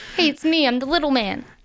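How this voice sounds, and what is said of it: Comedic TV character voice. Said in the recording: “we always do that voice, but we're actually doing Linda Litsky”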